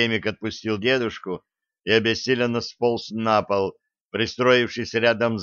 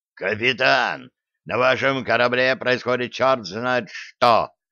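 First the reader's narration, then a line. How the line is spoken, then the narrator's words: Admiral's growl. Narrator (Russian): прорычал адмирал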